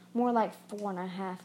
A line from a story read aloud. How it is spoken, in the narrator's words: he grunted